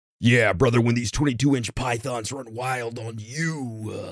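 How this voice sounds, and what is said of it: Imitates a wrestler's voice. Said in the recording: “in the Hulk Hogan voice ... I can't do a good Hulk Hogan. I got like a Macho Man impersonation ... Automatic Macho Man”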